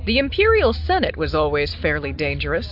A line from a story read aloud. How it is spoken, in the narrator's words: said dryly